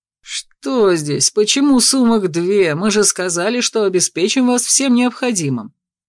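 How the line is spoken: Grumbling. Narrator (Russian): разворчался

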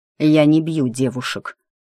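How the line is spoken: Through gritted teeth. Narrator (Russian): цедит сквозь зубы Никита

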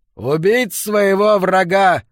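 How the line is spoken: Shouted. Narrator (Russian): выкрикнул Келлен

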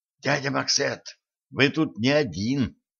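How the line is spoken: Blurted whisper. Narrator (Russian): шепотом выпалила Женька

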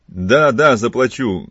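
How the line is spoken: Thunderous shout. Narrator (Russian): громовым голосом крикнул Филипп, как бы вдруг очнувшись от раздумья

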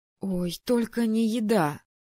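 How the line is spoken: Exclaiming. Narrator (Russian): воскликнула я

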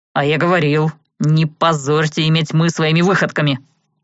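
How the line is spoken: Grumble. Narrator (Russian): буркнул Влад

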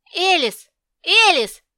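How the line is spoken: Frenzied shout. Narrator (Russian): закричал я, как исступленный

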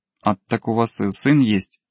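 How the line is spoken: Girl's giggle. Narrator (Russian): хихикнула девушка

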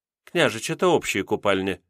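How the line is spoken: Calm. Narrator (Russian): спокойно произнесла она в ответ

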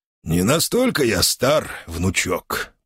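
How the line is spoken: Creaky, ironic old voice. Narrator (Russian): проскрипел маг, в голос которого явно вернулись нотки иронии

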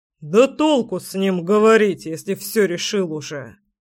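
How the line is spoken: Angry. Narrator (Russian): Зло произнес папка

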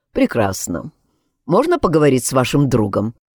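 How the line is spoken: Suspiciously calm. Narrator (Russian): подозрительно спокойно произнес полицейский

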